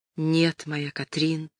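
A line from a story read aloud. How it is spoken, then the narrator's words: Tender. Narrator (Russian): ответил он нежно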